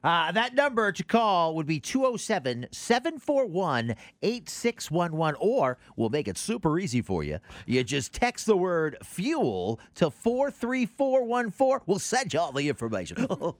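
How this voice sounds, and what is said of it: Radio DJ announcer voice. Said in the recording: “You put on your DJ voice for that. I did put on my DJ voice.”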